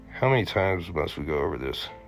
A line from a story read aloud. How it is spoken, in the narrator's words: Philip sighed